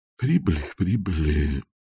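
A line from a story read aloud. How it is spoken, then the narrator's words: Muttering. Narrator (Russian): пробормотал музыкальный директор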